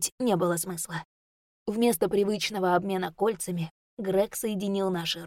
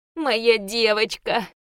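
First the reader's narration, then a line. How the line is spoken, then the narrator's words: Whimpering. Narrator (Russian): проскулил Ру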